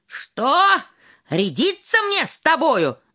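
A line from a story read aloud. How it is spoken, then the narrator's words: Shouted. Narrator (Russian): закричал он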